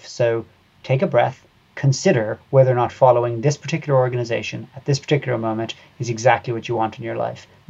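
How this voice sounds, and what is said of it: Irish accent. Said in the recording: “I can tell from your accent that you are Irish”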